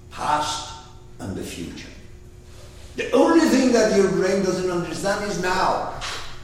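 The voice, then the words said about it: Arabic accent in English. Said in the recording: “my accent in Arab language”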